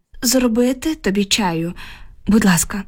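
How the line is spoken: Heavy sigh. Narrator (Ukrainian): відповіла і тяжко зітхнула

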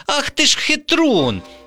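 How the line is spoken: Indignant exclamation. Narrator (Ukrainian): обурено вигукнула Вікуся

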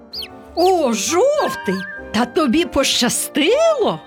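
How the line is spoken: Group exclamation. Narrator (Ukrainian): вигукнули вони

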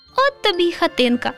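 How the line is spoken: Laughing. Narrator (Ukrainian): засміялося руденьке

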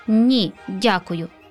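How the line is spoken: Plain. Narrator (Ukrainian): сказав святик

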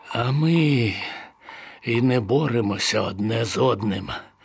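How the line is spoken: Sighing prisoner. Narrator (Ukrainian): зітхнув полонений

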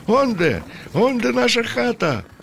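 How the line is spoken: Cheerful shouting. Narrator (Ukrainian): закричав весело

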